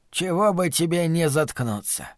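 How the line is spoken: Growling. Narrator (Russian): Коджак продолжал рычать

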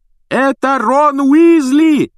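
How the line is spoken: Loud yelling over phone. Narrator (Russian): пуще прежнего орала трубка

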